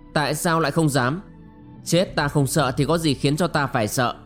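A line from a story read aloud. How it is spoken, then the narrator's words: Scornful sneer. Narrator (Vietnamese): Ngọc Lung Linh cười khẩy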